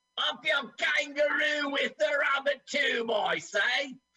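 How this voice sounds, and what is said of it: Attempted Australian accent sounding Cockney. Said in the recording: “I keep doing Cockney. I can't do Australian. ... you gave a bad impression.”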